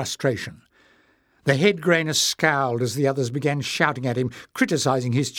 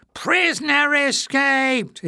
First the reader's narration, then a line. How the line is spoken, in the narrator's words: howled